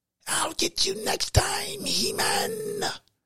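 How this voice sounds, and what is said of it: Whispered evil villain voice. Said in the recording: “Why are you whispering like that? This is my evil voice, like Skeletor. But Skeletor didn't talk like that.”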